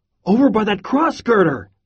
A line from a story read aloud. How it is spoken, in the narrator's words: yell